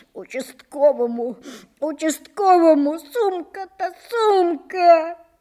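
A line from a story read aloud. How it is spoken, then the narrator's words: Sobbing, wailing ever louder. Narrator (Russian): Сквозь всхлипывание все громче и надрывнее вопил он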